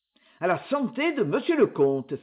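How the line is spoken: Exclaiming. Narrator (French): s'écria Henri

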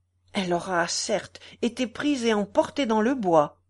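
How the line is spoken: Exclaimed. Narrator (French): s'écria Michaud

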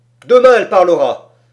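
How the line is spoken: Exclaimed. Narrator (French): s'écria Ivan Ogareff

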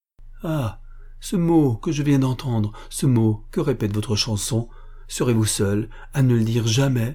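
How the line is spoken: Exclaiming. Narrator (French): s'écria Patricio Bempo

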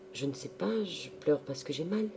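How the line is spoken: Stammered. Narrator (French): Elle balbutia

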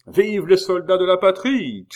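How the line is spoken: Shouted. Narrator (French): cria Billot

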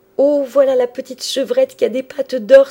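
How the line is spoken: Joyful exclamation. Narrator (French): s'écria Bérangère en sautant de joie

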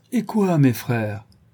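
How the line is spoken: Kindly, faintly reproachful. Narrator (French): leur dit-il d'un ton bienveillant, où perçait néanmoins l'intention d'un reproche

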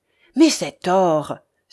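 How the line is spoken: Grave exclamation. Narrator (French): s'écria Ivanhoé gravement

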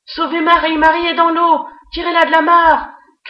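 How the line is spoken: Continuous desperate shouting. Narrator (French): criai-je sans discontinuer

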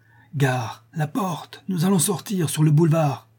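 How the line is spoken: Breathless shout, skeleton. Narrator (French): Le squelette cria d'une voix haletante

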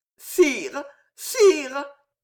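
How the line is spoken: Ecstatic stammering. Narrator (French): bégayait Jeanne, extasiée

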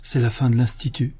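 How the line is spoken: Murmured. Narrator (French): murmura sœur Danielle

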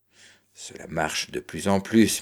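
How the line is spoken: American man murmuring. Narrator (French): murmura l'Américain

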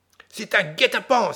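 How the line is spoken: Alarmed exclamation. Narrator (French): s'écria le maire

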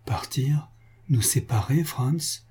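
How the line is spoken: Broken murmur. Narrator (French): murmura Antoine d'une voix brisée

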